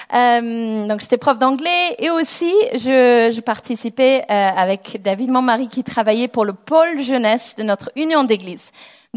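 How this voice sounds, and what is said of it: English accent speaking French. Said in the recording (French): “je suis anglaise, si vous n'entendez pas mon accent.”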